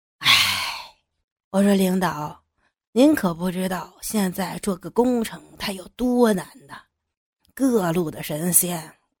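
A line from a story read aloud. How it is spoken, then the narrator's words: Sudden sigh. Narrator (Chinese): 张七忽地叹了口气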